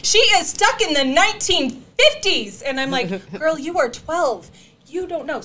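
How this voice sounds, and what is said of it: Yelling, loud voice. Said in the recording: “I'm yelling”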